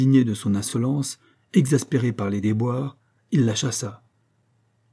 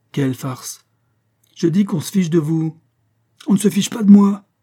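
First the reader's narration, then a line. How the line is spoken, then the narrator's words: Crying out. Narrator (French): s'écria Pécuchet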